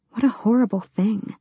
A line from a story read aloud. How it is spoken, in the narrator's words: she whispered